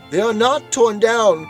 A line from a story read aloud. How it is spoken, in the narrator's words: cried Scrooge